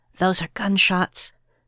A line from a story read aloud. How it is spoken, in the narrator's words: Sophia exclaimed in a hoarse whisper